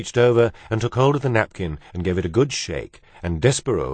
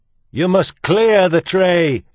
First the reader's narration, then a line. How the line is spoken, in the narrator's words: shouted Cook